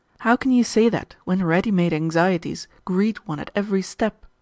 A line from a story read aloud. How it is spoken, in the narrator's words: exclaimed Vasily